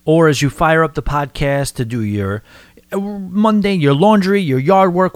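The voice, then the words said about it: New York accent. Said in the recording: “my New York accent ... they just can't stand the way I talk”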